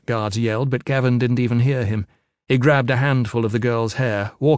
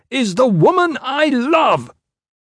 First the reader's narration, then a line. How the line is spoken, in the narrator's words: With an inhuman roar